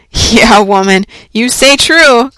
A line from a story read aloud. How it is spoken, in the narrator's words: cried old Roger Chillingworth, letting the lurid fire of his heart blaze out